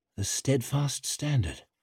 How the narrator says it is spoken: murmured Leo

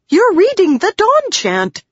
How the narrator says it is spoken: Shallan exclaimed

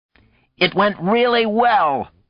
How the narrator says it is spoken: was saying to a chorus of shouted protest

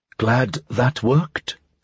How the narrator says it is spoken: Talia said under her breath

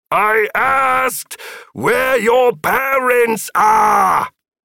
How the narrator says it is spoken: Philip shouted over another round of Papa Mau Maus

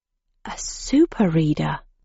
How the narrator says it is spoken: I breathed

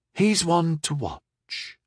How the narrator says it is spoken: Penny said quietly

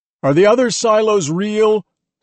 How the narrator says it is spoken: Someone shouted

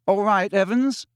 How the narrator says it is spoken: said James, and the tone of his voice was suddenly pleasant, deeper, more mature

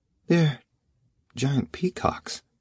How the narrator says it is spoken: Irma whispered

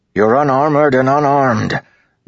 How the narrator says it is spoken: Dalinar bellowed

